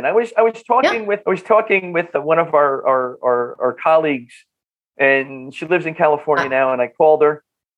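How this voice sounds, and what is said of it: Northern New Jersey accent. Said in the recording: “are you from Brooklyn or are you from Northern New Jersey? ... Northern New Jersey. ... I love your accent”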